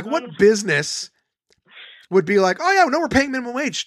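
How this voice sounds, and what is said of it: Loud, shouting rant. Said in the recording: “I'm sorry, I'm screaming at you, by the way”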